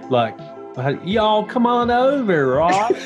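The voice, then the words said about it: Put-on Southern accent. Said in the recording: “Or we could do a Southern accent.”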